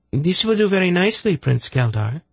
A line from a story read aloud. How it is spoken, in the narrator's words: she said brightly